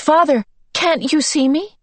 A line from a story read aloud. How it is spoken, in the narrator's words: she cried